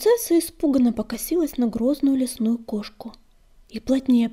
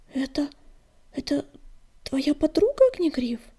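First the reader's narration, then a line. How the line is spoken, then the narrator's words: Timid faltering murmur. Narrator (Russian): пролепетала она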